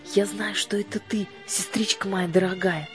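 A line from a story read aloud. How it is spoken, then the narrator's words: Whispered into ear. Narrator (Russian): прошептала она прямо в ухо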